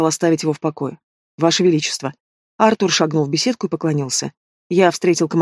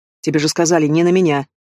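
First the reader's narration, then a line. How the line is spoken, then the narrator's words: Sharp reply. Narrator (Russian): резко ответил король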